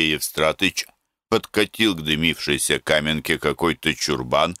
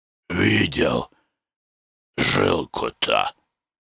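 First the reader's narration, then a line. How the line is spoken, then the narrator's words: Muffled, holding back a cough. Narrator (Russian): глухо спросил Маркушка, удерживая душивший его кашель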